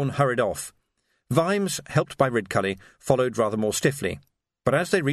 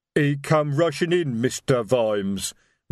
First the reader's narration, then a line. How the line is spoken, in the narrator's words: rumbled Detritus